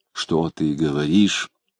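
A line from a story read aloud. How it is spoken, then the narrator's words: Gentle reproach. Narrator (Russian): Мягко упрекнула его Вера Петровна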